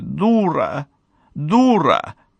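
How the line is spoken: Sudden, tearful. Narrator (Russian): Майя вдруг сказала сквозь слезы

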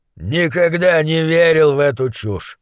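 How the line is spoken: Grumbling. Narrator (Russian): проворчал Гуляш

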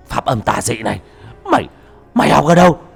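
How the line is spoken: Frightened cry. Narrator (Vietnamese): Nó hoảng sợ kêu lên

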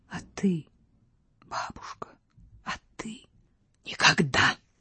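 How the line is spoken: Princess crying out. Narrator (Russian): вскрикнула княгиня

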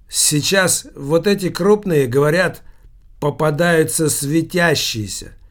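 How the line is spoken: Loud, continuing. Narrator (Russian): громко продолжал повар

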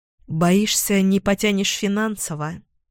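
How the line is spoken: Gloomy smirk. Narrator (Russian): Мрачно усмехаюсь

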